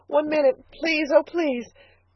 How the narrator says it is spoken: begged Elnora

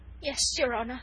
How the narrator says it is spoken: stammered the poor wretch

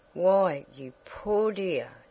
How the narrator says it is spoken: sighed Mrs

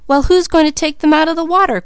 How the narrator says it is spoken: cried Malcolm

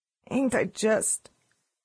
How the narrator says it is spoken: she said in a hoarse voice

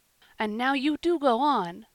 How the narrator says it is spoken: cried Joel and David, both in the same breath

